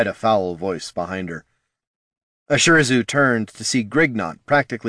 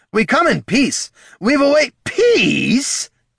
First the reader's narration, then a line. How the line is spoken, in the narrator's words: Grignot shrieked, a cruel grin flashing